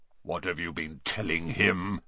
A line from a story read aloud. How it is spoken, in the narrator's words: growled Bane